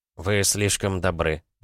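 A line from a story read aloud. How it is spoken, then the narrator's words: Muttering. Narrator (Russian): пробормотал граф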